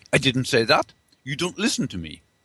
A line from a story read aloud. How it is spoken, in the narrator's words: Wenger snapped back